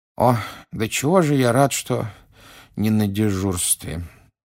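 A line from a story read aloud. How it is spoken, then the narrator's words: Sleepy mumble. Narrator (Russian): сонно пробормотал мистер Уизли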